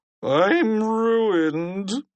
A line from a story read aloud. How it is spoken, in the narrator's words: Principal Krupp whined